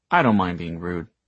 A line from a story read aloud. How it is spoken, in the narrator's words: Michael said